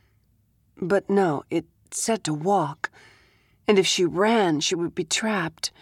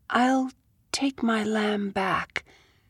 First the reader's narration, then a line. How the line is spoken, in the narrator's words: she said, as softly as she could and still be heard